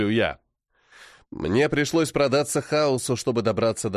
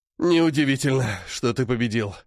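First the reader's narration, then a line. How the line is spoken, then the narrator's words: Hoarse. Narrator (Russian): хрипит он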